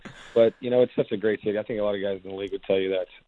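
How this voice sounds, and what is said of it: Damaged, not-yet-recovered voice. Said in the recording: “Sorry about my voice. ... slowly on its way back.”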